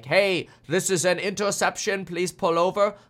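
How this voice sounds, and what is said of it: Put-on German accent. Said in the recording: “I also don't know why I'm using a German accent.”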